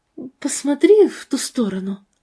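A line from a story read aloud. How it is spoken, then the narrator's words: Quiet. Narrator (Russian): тихо сказала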